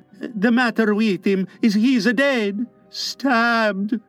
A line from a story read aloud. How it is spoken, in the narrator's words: replied Checho in a hollow voice